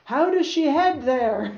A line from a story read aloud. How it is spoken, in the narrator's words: I cried to an imaginary man at the helm